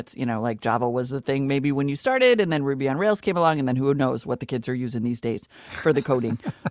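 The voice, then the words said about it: Put-on North Dakota grandma accent. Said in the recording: “North Dakota grandma ... It's better to talk about coding in a North Dakota accent”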